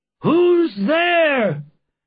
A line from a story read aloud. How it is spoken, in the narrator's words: they cried